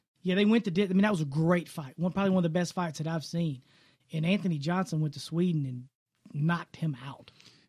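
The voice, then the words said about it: Drawl. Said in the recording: “You've got that drawl”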